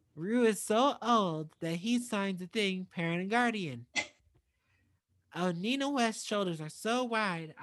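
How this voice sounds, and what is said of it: Imitates another person's voice. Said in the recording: “good Olivia Lux impression? Like, that actually sounded exactly like her.”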